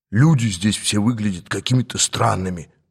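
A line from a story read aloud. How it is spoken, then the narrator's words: Whisper. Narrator (Russian): прошептал мне один из них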